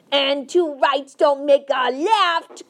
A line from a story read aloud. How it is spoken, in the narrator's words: cried the BFG